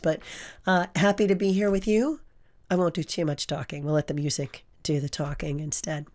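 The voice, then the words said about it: Hoarse voice. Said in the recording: “Please forgive the hoarse voice. Yeah, the allergies, right? The pollen everywhere. It's just making me really hoarse.”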